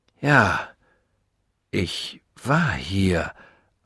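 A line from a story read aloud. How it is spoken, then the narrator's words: Slow, shaken answer. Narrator (German): antwortete langsam, denn plötzlich schien mir der Fußboden unter den Füßen wegzurutschen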